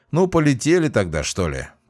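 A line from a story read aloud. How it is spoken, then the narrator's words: Grumbling. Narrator (Russian): проворчал Джейсон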